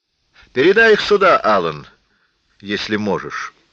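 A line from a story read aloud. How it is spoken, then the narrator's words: Calm. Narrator (Russian): спокойно сказала она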